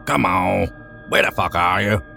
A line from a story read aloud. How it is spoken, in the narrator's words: Sean growled